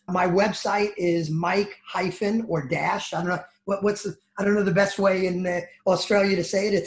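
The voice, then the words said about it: New Jersey accent. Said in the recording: “my New Jersey accent”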